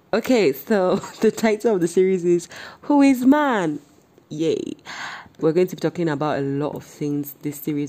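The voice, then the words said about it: Nigerian-American accent. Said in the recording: “my Nigerian-American accent”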